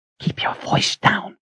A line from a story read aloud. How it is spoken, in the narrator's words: she whispered angrily